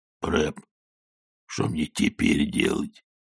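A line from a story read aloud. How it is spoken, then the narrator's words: Whispered question. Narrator (Russian): шепотом спросил Коэн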